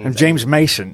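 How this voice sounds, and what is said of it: Imitates another person's voice. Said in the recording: “I don't know if that's an accurate impersonation”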